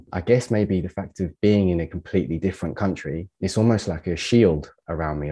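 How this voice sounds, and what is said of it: English accent with slight French twang. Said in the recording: “I have this like weird twang to my English accent now. ... there's little French bits that creep in from time to time”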